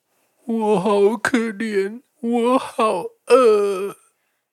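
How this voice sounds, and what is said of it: Big bad wolf speaking softly, slowly. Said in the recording (Chinese): “大野狼竟然真的小声讲，慢慢讲了”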